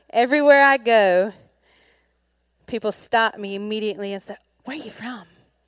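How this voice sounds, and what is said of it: Southern US accent, South Mississippi. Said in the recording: “The accent is from South Mississippi.”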